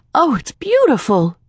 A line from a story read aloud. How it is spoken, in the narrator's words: Joan exclaimed